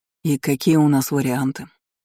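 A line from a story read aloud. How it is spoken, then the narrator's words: Calm inquiry. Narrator (Russian): Все так же спокойно поинтересовался Асфараол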